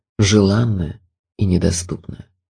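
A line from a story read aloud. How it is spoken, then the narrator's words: Sad. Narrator (Russian): проговорил печально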